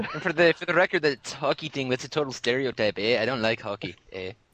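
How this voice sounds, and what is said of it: Exaggerated Canadian accent. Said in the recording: “as long as you're not making fun of my accent, eh? ... Just don't be making fun of my accent, eh?”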